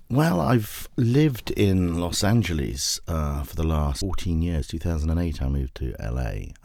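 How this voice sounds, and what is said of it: British accent. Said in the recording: “as you can tell, obviously, from the accent, I'm not from Southern California. I was a British filmmaker”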